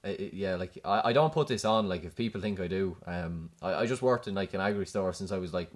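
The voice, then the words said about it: Strong rural Irish accent. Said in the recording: “You sound like a proper cult, you know... your voice changed so much... Proper cult.”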